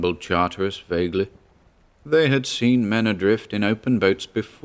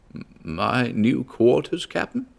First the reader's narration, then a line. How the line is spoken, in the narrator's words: asked hoarsely